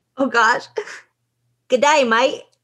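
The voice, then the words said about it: Put-on Australian accent. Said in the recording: “Say good day, mate, in an Australian accent.”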